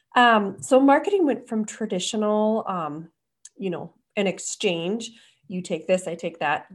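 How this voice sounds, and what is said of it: Hoarse, fading voice. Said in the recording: “As I lose my voice.”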